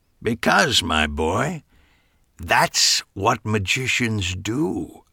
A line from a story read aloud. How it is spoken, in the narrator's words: Harry said solemnly